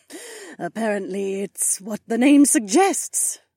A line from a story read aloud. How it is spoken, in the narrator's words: she said through another chuckle